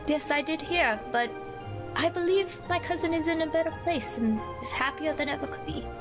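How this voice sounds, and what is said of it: British accent. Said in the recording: “I love your accent, by the way... This is a British accent... The British have such delightful accents.”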